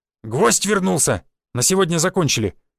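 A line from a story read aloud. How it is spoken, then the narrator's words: Barked by fighter. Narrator (Russian): рявкнул один из бойцов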